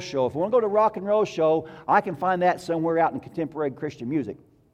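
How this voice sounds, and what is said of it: Sarcastic tone. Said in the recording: “That was sarcastic”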